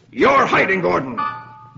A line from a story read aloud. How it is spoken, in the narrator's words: Stang snaps